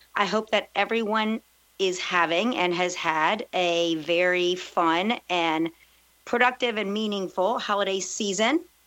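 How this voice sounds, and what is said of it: Raspy voice, hoarse from a cold. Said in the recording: “I'm recovering from a cold, so my voice is a little more raspy than usual”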